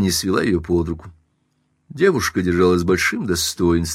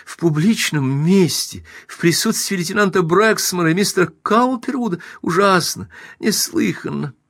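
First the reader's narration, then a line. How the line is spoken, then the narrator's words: Moaning and wailing. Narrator (Russian): Она продолжала стонать и причитать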